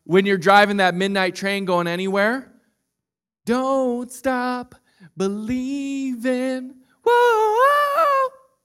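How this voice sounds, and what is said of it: Raspy jazz singing voice. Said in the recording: “Get that raspy jazz voice going.”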